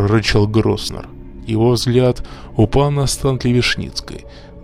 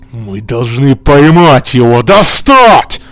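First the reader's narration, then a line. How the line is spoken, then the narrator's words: Shouting. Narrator (Russian): кричал Маккинон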